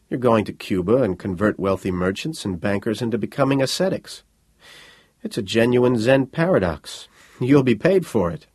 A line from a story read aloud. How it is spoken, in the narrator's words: chuckled